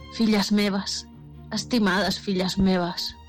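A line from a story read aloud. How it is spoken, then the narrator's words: Sighing dragon. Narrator (Catalan): va sospirar el drac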